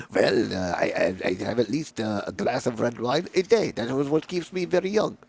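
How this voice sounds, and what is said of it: Poor put-on French accent. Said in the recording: “I'm a terrible French accent.”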